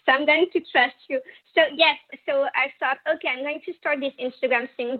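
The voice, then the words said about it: French accent in English. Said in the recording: “your accent is a part of the whole vibe ... how hot the French accent is ... Guys are drooling over your accent.”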